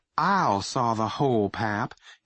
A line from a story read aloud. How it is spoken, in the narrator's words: his mom said soothingly